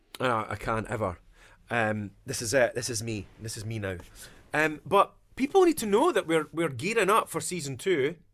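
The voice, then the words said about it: Dundonian Scottish accent. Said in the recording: “just a great Dundonian accent that he does”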